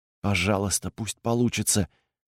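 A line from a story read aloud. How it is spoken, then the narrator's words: Whispered under breath. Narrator (Russian): прошептал он себе под нос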